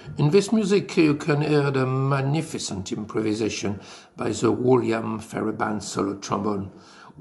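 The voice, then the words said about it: French accent. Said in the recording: “with my lovely French accent”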